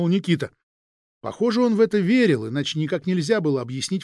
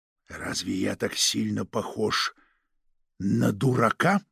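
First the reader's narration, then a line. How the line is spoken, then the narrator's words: Whispered question. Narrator (Russian): спросил шепотом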